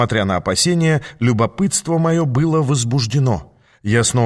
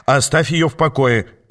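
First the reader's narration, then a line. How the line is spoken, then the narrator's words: Barked. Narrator (Russian): рявкнул я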